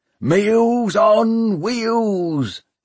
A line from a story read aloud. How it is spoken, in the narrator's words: the pirates howled